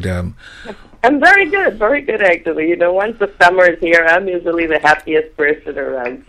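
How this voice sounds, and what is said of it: Stuffy, congested voice. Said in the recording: “I have a little cold, so I'm not sounding the same as I did on that.”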